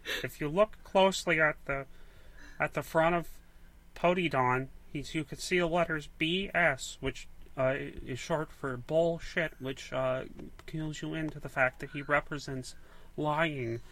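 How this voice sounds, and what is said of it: Imitates another person's voice. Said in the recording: “my Jordan Peterson impression ... It's not very good.”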